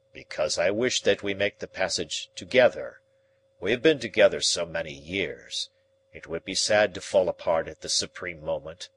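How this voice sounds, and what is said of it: Tender, gentle voice. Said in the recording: “in his tender voice”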